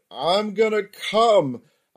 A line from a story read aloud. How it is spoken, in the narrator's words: she screamed